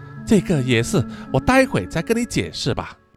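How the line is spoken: Sighing. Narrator (Chinese): 西里子啊叹了一口气啊，说

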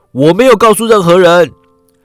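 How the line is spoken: Shouting. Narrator (Chinese): 乡绅大叫

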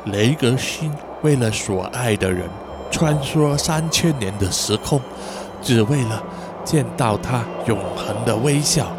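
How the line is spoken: Murmured recitation. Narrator (Chinese): 他喃喃地念着

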